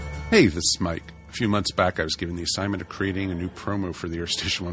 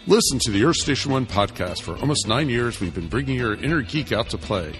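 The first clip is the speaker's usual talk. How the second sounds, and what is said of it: Deep radio announcer voice. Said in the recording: “I guess I could just use my announcer voice.”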